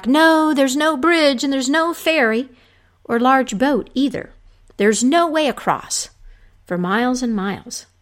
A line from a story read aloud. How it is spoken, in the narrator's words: the man who was fishing yelled back